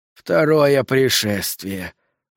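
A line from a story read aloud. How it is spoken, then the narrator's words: Breathed out. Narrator (Russian): выдохнул Саттер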